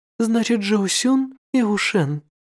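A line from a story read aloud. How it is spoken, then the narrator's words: Female voice sighing. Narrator (Russian): вздохнул женский голос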